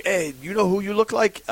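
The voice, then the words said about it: Poor imitation Caribbean accent. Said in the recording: “that's a terrible Caribbean accent”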